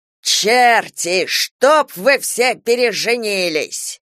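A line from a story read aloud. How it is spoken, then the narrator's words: Old voice shouting. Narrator (Russian): старческий голос не прокричал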